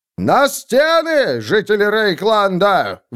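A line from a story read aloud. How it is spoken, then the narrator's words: Roar. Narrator (Russian): взревел он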